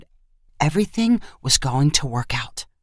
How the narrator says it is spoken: whispered

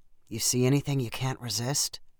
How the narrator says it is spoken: Andrew whispered

